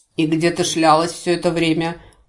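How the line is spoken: Gloomy question. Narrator (Russian): мрачно поинтересовался Гвори

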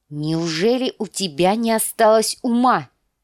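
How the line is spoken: Barking snap. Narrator (Russian): рявкнула Лиза

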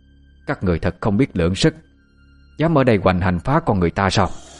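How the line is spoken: Old woman's angry shout. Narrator (Vietnamese): Bà giận dữ quát lên

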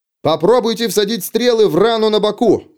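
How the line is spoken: Shouted. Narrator (Russian): прокричал Феликс

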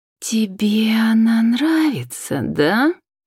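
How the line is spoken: Sarcastic hiss, girl. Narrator (Russian): Язвительно прошипела девушка

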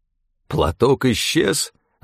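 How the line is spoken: Almost plaintive voice. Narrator (Russian): голос Стефана звучал почти что жалобно

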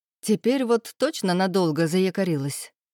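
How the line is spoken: Laughing female voice. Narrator (Russian): хохотнула Ирина

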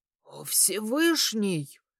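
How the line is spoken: Duke's suddenly hoarse mutter. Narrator (Russian): севшим вмиг голосом пробормотал герцог

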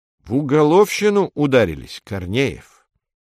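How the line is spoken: Unpleasant voice. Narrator (Russian): неприятным голосом произносит Хунта

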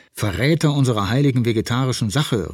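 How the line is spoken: Calling after someone. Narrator (German): rief ihm Engelhardt hinterher

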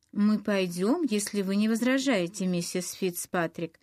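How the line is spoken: Plain. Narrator (Russian): сказала Пегги

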